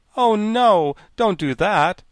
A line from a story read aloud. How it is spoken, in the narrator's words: exclaimed the Tin Woodman